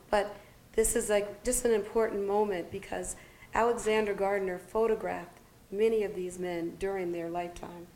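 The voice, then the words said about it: Strained, failing voice. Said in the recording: “my voice is just going”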